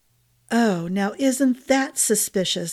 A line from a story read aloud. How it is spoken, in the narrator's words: Glynna said, her tone sour